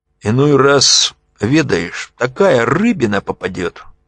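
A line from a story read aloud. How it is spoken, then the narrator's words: Burred speech. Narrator (Russian): говорил Глеб картавя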